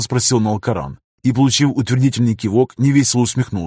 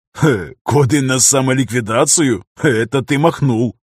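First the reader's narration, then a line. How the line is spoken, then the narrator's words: Laughing. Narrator (Russian): хохотнул Дейран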